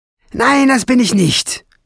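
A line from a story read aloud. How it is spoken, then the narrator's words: Hissing goblin girl. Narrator (German): fauchte das Koboldmädchen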